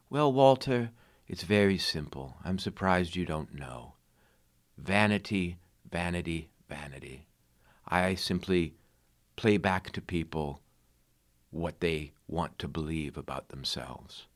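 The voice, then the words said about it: Peculiar fancy accent imitation. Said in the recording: “said in his very peculiar, fancy accent”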